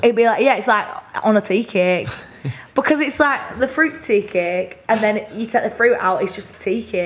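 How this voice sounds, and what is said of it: Burnley accent, extended vowels. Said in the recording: “I extend my vowels a bit more. I love my accent... I love a Burnley accent.”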